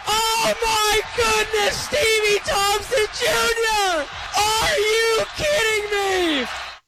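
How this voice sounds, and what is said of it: Excited yelling. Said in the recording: “Quit yelling.”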